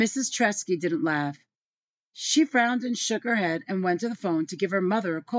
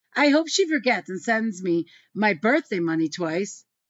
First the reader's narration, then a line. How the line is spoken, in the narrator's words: Jesse had laughed and said